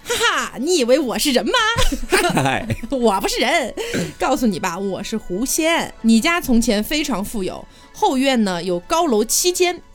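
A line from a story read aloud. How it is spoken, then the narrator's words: Loud composed laughter. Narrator (Chinese): 这个女子面不改色的大声笑道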